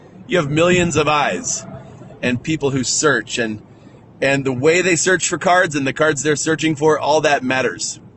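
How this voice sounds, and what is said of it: Loud, excited shouting voice. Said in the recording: “if I'm shouting ... I'm excited”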